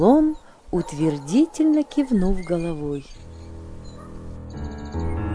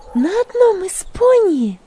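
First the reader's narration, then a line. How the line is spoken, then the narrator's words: Exclamation. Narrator (Russian): воскликнула Магдалина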